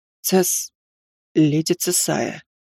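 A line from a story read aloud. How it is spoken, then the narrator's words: Hoarse. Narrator (Russian): хрипло произнес он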